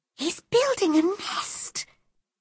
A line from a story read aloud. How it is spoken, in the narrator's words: whispered Mary